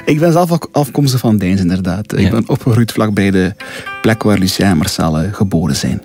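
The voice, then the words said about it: Light regional Flemish accent. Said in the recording (Dutch): “een licht accent ... Je bent zelf van Deinze?”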